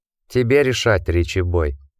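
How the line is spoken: Gentle remark. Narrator (Russian): мягко заметил Джек

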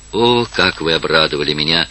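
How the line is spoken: Whisper. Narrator (Russian): отвечала она шепотом

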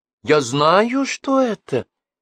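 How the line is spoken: Exclamation. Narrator (Russian): воскликнула княжна

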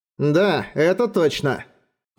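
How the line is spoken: Grumbling. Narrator (Russian): проворчал Бром

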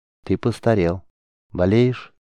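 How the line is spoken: Casual sympathetic sarcastic tone. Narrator (Russian): Пленник сказал это самым обыденным, даже сочувственным тоном, но Геллерд не сомневался, это было сарказмом

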